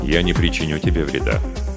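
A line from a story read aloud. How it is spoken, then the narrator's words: Calm. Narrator (Russian): спокойно произнес Джа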